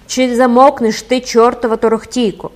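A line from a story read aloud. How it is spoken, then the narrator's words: Woman shouting. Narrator (Ukrainian): крикнула жінка з того ж темного закутка Майдану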